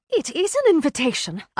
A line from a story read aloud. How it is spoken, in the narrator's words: said excitedly